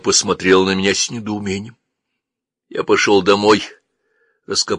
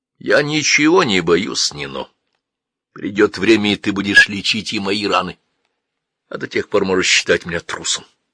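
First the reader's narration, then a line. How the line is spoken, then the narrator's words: Calm. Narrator (Russian): спокойно сказал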